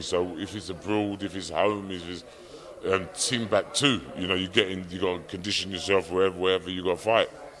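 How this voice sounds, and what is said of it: Strong Geordie accent. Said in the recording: “your Geordie accent is immaculate”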